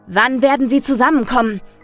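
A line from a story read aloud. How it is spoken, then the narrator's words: Shouting at child. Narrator (German): schrie ich dem kleinen Kind entgegen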